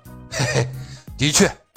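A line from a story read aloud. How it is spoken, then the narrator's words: Startled chuckle. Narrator (Chinese): 大老爸一愣，嘿嘿一笑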